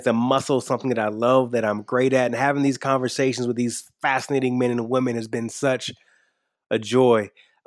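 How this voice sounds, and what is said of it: Slight twang accent. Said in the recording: “You can hear a little bit of my twang.”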